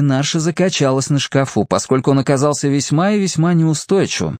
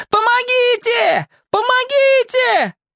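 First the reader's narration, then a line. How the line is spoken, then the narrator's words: Yelling. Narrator (Russian): заорала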